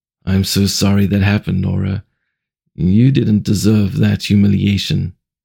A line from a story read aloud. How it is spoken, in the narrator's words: M felt his own eyes well up and he softly responded